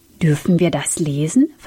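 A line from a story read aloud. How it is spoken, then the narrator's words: Plain. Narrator (German): fragte Sam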